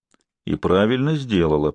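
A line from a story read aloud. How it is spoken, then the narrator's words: Grumbling. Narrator (Russian): проворчал Сварог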